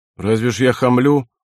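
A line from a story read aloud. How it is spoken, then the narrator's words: Surprised. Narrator (Russian): удивился Сологрей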